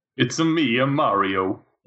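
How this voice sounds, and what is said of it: Cartoonish Nintendo video game character voice. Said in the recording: “talking like a Nintendo character”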